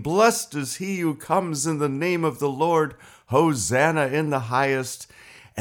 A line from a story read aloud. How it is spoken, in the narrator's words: that one last triumphant shout to the king